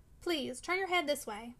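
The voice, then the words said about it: Entreating, pleading voice. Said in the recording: “said in an entreating voice,”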